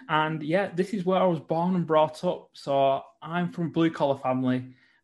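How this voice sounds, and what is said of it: Northern English accent. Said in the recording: “I live in the north of England, if you can't tell by the accent.”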